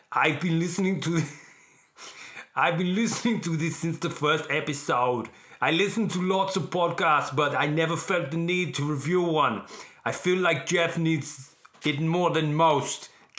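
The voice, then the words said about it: Bad Arnold Schwarzenegger impression. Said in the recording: “Should I do this as Arnold? This is my first ever attempt at an Arnold Schwarzenegger impersonation. ... Okay, that was awful. That was up there with how bad the Yoda was.”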